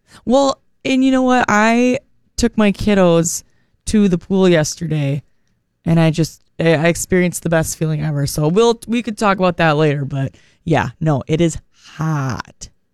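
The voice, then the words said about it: Raspy, slightly squeaky voice. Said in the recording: “My voice is a little bit raspy, a little bit squeaky.”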